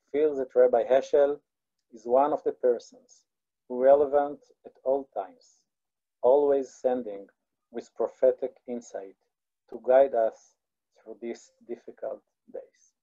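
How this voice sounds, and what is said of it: Speaks English with an accent. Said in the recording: “I have to apologize again for my accent”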